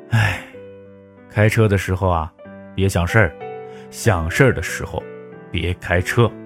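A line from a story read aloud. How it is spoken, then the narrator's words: Father's resigned sigh. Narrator (Chinese): 爸爸无奈的叹息说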